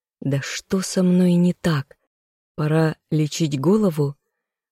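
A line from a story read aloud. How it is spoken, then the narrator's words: Inner groan. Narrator (Russian): застонал мысленно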